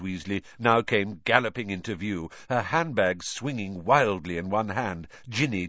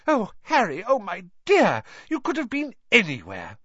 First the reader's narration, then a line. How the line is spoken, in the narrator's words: Gasping for breath